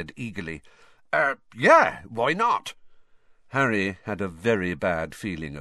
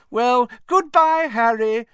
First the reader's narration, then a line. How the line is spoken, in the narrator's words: Rita Skeeter called merrily to him